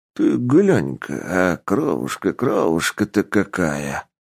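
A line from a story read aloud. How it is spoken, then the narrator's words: Barber muttering. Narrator (Russian): Бормотал цирюльник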